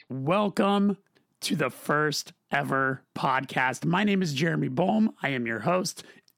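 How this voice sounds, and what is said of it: Rough, hoarse voice from cold. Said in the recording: “I sound a little rougher than usual. I'm recovering from a little bit of a cold.”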